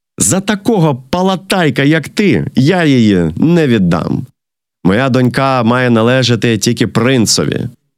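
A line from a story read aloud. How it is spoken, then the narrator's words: Laughing. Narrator (Ukrainian): Цісар засміявся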